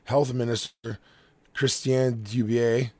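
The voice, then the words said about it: Fake French accent. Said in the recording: “that was very French, I know. I just did a fake French accent”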